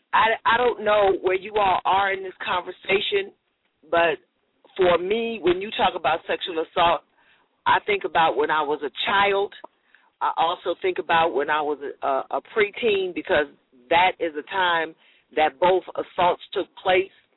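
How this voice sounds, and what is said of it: Emotional voice. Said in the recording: “Oh, my God, I'm getting emotional.”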